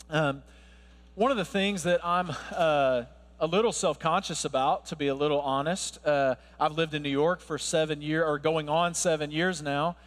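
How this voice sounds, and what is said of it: American Southern accent. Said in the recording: “my accent ... I'm not from around here ... You hear the Southern accent”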